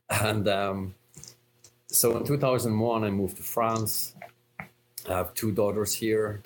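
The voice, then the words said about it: Slight Irish brogue. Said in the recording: “if you haven't placed the accent, I'm Irish, from a town called Cork... I thought I still had a touch of the Irish brogue, but maybe I'm losing it”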